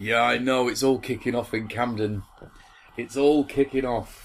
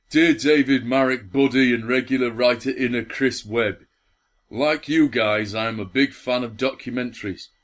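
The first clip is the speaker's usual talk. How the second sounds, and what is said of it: Strong Yorkshire accent. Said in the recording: “this is in a strong Yorkshire accent”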